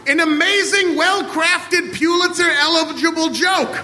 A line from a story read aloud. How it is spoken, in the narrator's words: pleaded Ian